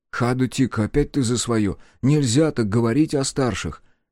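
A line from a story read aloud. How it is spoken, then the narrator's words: Sighing. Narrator (Russian): вздохнул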